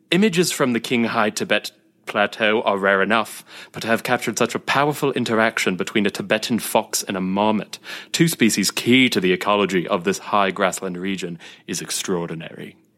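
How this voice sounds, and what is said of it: Put-on posh British narrator accent. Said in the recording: “You did that so well. ... I don't know why I don't break out my accents more often. ... I'm just like imagining this British like this guy in this like library with like mahogany wood.”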